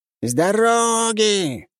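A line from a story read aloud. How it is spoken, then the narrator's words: Distant shout from behind. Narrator (Russian): кричала баба Маня откуда-то позади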